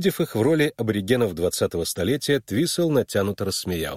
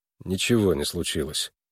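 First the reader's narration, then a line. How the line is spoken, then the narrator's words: Gloomy reply. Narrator (Russian): уныло отвечал Харлан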